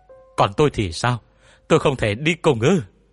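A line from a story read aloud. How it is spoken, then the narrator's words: Panicked scream. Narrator (Vietnamese): Cô Thành sợ đến hốt hoảng, cô hét lên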